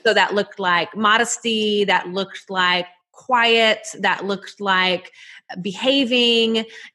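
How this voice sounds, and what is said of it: Southern US accent. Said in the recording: “you can probably hear it in my accent, but I'm from Nashville, Tennessee, y'all”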